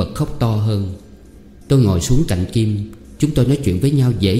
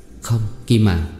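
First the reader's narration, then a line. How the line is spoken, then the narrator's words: Hesitant. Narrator (Vietnamese): Tôi ngập ngừng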